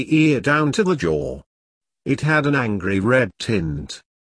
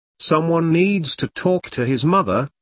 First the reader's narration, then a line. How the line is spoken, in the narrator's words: he said, and struggled to keep his voice steady